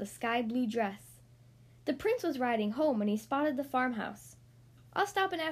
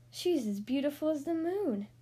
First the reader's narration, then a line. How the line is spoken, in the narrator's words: sighed the prince